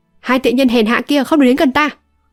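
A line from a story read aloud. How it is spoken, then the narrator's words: Shouting. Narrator (Vietnamese): Âu Dương Thu quát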